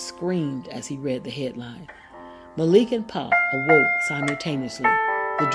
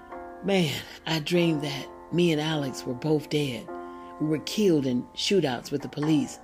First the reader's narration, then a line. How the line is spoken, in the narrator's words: moaned Pop